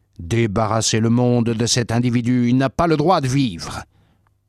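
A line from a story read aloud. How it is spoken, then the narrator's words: Crowd shouting. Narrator (French): Ils criaient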